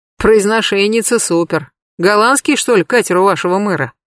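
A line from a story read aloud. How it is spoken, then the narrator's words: Man snorting. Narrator (Russian): хмыкнул мужчина в толстовке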